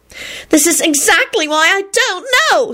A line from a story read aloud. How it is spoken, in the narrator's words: Solange wailed